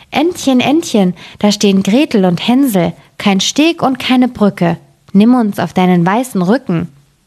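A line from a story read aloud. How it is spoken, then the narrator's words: Called out. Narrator (German): Da rief sie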